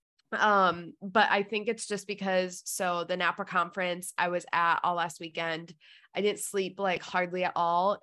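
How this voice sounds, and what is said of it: Stuffed-up congested sick voice. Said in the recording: “maybe you can tell from my voice, but I'm sick. Just, like, stuffed up, clogged up ... so congested”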